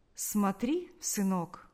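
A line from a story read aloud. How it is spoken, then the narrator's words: Instructive tone. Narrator (Russian): поучительным тоном сказал дядя Ваня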